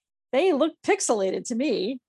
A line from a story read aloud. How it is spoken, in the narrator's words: Randy chuckled